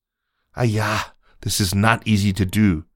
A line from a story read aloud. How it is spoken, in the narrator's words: Mao could be heard muttering